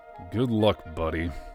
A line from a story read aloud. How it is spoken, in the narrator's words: mutter